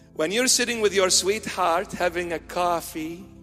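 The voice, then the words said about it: Mock American accent on 'coffee'. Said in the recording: “that's an American accent, coffee.”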